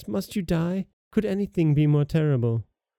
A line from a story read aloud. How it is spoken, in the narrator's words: cried the princess